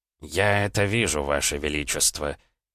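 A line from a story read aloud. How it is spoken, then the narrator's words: Through gritted teeth. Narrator (Russian): сквозь зубы проговорил Аракчеев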